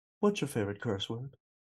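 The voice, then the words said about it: Terrible imitation of another person's voice. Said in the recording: “my terrible James Lipton impersonation”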